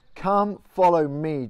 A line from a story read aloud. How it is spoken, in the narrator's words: Jesus said